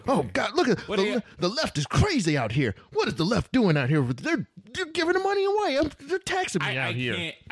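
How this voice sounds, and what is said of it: Angry mocking caricature voice. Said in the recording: “when we impersonate them, it's always their anger ... If we impersonate them, that's what we sound like.”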